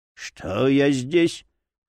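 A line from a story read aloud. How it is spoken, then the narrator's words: Hoarse voice. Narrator (Russian): хрипло произнес Джерри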